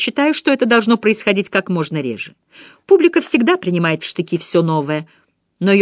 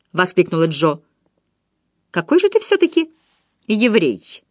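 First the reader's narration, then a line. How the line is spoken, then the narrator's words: Calm. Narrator (Russian): спокойно закончил Себастьян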